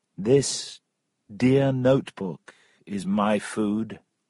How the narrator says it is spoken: said Tom

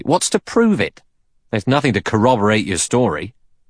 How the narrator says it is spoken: Blore said sharply

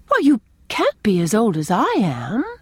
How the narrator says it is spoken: exclaimed Anne

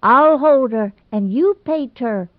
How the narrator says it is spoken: Ivy shrieked vainly in despair

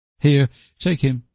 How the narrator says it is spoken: she said hastily

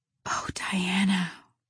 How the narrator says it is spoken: whispered Anne

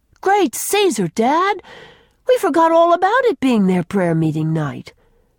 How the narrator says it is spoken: exclaimed Jerry in dismay

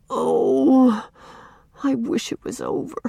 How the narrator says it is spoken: groaned Walter

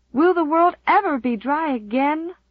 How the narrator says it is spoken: moaned Di despairingly

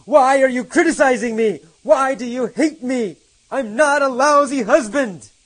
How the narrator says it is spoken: He yelled

